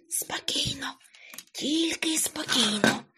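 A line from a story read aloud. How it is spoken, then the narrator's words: Whisper. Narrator (Ukrainian): пошепки сказав Карлсон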